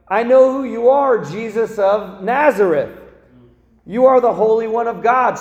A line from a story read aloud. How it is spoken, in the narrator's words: a demon yelling